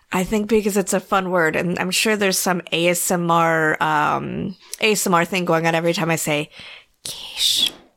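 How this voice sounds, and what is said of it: Whispering. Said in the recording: “why I'm whispering”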